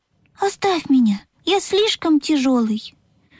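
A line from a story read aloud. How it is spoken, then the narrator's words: Sad. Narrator (Russian): грустно сказал паровозик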